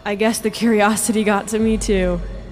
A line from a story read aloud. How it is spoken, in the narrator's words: he said with a laugh